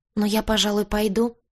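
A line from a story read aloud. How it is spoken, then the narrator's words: Timid. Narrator (Russian): робко сказала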